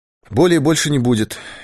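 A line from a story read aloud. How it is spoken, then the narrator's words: Clear cheerful voice. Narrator (Russian): ясным веселым голосом сказал Дауге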